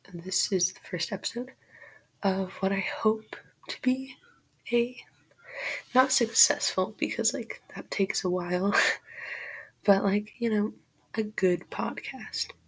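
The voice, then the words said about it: Breathless, out-of-breath speech. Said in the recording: “Sorry, I'm out of breath. I'm so excited right now.”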